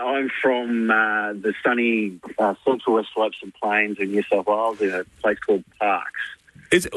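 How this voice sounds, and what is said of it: Western New South Wales twang. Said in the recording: “I'm detecting a Western New South Wales twang.”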